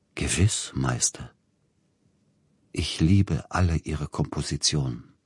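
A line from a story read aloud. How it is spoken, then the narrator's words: Slow, nasal, solemn murmur. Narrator (German): sagte er besonders näselnd und langsam, mit einer gewissen raunenden Feierlichkeit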